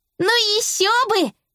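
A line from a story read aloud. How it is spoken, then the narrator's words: Exclaiming. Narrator (Russian): воскликнула Белла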